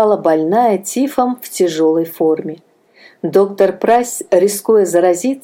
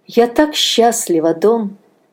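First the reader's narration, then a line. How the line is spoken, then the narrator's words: Sighing. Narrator (Russian): вздохнула Анна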